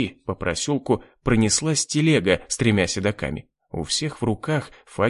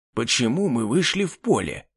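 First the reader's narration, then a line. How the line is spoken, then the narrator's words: Displeased hiss. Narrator (Russian): недовольно прошипел на Агнешу Гектор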